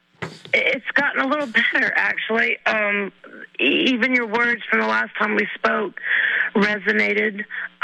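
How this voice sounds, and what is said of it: Slightly rough, unwell-sounding voice. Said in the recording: “my voice is a little messed up. I've been a little under the weather”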